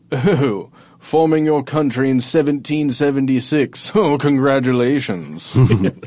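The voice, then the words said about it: Mock British King George accent. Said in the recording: “just so I can do the accent again ... Were you watching BBC or something earlier? ... a King George ... British accents”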